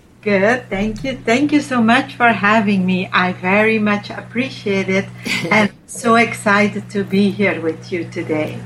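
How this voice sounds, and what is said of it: Slight French accent. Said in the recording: “I love your accent. It's so beautiful. ... To me, it sounds like a French accent. ... It's a little bit French.”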